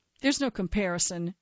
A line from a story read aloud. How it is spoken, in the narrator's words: he barked